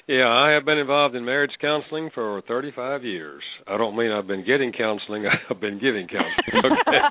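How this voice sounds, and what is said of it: North Carolina Southern accent. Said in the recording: “I'm calling from North Carolina. If you can tell the accent,”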